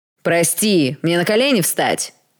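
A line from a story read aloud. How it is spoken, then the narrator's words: Sudden yell. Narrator (Russian): заорал вдруг Тед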